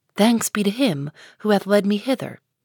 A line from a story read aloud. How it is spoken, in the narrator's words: answered the minister